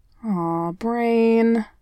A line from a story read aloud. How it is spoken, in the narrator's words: he moaned